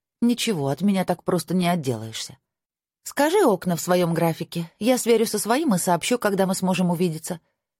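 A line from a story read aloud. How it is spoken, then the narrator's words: Calm reply. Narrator (Russian): спокойно ответила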